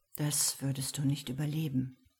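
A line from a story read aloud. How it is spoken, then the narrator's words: Murmured. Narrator (German): murmelte er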